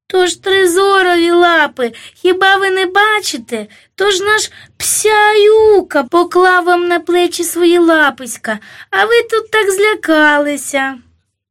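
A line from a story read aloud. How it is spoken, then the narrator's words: Childlike sobbing speech. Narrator (Ukrainian): сатана враз притих по-дитячому схлипнув і сказав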